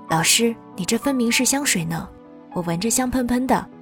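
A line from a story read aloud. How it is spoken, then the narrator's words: Smiling, teasing. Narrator (Chinese): 笑笑的调侃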